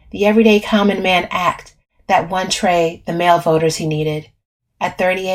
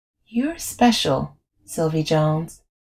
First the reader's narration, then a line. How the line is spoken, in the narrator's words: he'd murmured